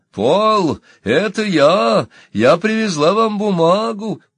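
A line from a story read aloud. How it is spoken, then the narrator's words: Cheerful shout. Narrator (Russian): Энни весело крикнула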